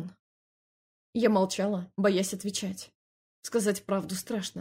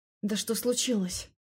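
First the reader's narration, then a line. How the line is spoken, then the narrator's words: Forced out, strained. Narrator (Russian): наконец выдавила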